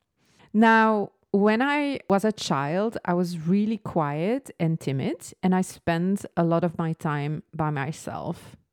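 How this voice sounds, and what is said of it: Slight French-Belgian accent. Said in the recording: “the weird French kind of accent”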